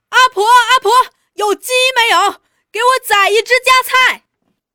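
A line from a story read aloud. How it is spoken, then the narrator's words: Blustering shout. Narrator (Chinese): 虚张声势的叫着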